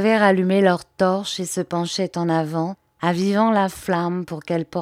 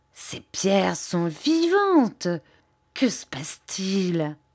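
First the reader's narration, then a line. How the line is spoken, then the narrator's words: Choked voice of shepherdess. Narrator (French): articula la bergère d'une voix étranglée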